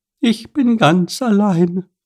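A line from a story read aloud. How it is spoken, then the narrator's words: Chirping bird. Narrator (German): piepste die Blaumeise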